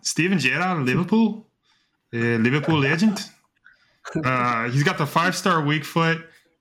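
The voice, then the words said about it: Put-on Scouse accent. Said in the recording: “I hope you guys like my Scouse accent there.”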